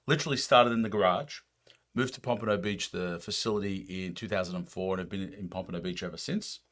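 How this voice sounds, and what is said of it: Slight non-American accent. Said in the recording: “you hear a bit of a funny accent”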